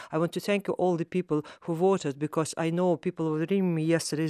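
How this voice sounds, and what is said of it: Russian accent mixed with Irish Midlands. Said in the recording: “I love the mixture of Russian and Midlands accent ... Russian accent mixed with Irish country ... you drop your THs as well, which we do in the Midlands”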